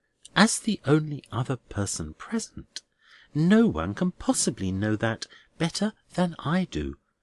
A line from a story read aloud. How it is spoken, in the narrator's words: returned the Minor Canon very quietly